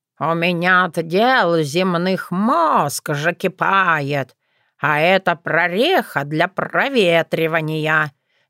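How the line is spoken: Displeased grumbling. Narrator (Russian): недовольно проворчала я

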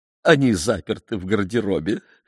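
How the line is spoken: Laughing, frightened and joyful. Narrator (Russian): объяснила Фрёкинбок и засмеялась испуганно и радостно

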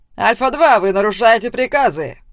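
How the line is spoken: Commander barking. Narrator (Russian): рявкнул его командир

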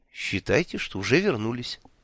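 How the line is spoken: Matter-of-fact reply. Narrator (Russian): будничным тоном откликнулся Гурик

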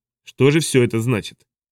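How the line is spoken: Cold question. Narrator (Russian): холодно спросил

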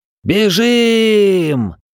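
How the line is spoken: Yelling. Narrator (Russian): Заорал я

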